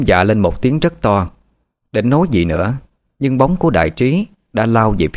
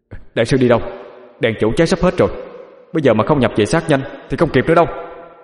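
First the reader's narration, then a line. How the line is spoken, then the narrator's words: Panicked loud shout. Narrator (Vietnamese): hốt hoảng định bay đi thì chim hét lớn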